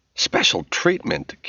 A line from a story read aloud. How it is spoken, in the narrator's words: Kim sputtered